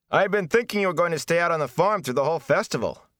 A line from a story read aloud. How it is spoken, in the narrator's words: Perrin Abara shouted at Rand over the clamor